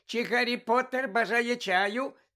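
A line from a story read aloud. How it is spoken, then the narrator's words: Loud squeak over sobbing. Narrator (Ukrainian): запищав він голосно, аби перекричати рюмсання Вінки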